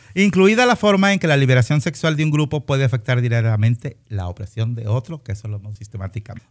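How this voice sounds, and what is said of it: Polished radio announcer voice. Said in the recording (Spanish): “voz de locutora”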